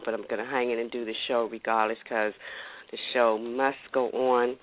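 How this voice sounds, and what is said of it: Voice sounding worse than usual. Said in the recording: “my voice sounds worse than it generally sounds, it's because I have a cold”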